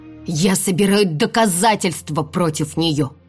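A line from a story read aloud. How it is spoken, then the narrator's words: Growling. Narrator (Russian): рыкнула я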